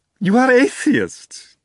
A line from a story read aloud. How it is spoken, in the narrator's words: asked, practically squealing with curiosity